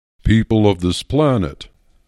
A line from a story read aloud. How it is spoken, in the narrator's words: boomed the tallest blue creature